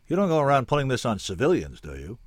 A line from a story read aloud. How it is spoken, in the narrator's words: I asked irritably